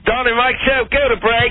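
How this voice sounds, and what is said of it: Put-on British accent. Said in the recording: “that miraculous British accent ... your British accent”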